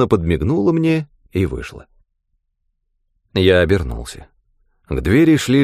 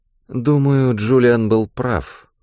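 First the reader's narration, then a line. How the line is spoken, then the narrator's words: Sleepy voice. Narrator (Russian): сонно проговорила Фиона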